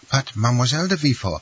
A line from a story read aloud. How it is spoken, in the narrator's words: stammered the nurse